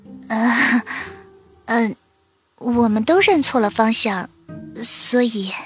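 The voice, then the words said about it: Quiet embarrassed mumbling. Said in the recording (Chinese): “双颊通红，低着头小声的嘟囔道”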